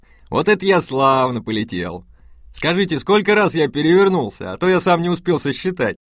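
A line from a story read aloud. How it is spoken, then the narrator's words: Merry laughter. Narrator (Russian): Хаджа Насреддин весело рассмеялся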